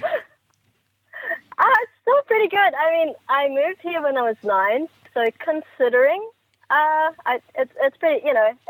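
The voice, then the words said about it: New Zealand accent. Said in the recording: “our accents are very Kiwi, you know... we sound completely different”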